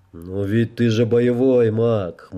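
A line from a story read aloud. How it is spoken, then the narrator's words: Wry snort. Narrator (Russian): хмыкнул он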